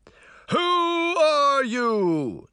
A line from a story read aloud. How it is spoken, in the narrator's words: the head bellowed